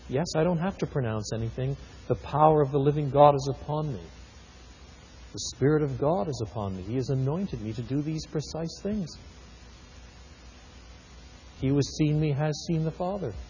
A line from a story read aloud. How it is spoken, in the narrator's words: Jesus smiling quietly to himself and saying